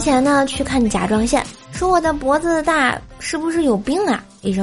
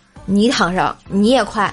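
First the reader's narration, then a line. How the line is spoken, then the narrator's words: Flat, indifferent. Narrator (Chinese): 医生淡淡的说了一句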